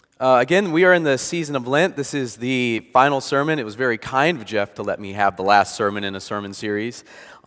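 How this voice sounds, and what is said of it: Lower voice from a cold. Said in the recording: “as we've been battling a cold. As you notice, my voice is probably a little lower.”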